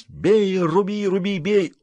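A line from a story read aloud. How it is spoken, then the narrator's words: Tired, near-sobbing whine. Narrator (Russian): Уже едва не рыдая, устало ныли туром и не туром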